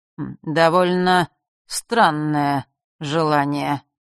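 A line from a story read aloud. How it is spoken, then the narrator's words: Slow, relishing. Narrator (Russian): медленно, с каким-то наслаждением, произнес хозяин Змеулана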